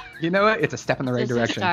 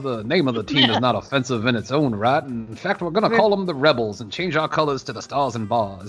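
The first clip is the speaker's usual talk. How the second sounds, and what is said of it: Old-timey Southern gentleman voice. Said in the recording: “this old timey Southern man ... I've done an impersonation of it before, where it's like the Southern gentleman, like that real like. ... Foghorn Leghorn ... Foghorn Leghorn / Colonel Sanders.”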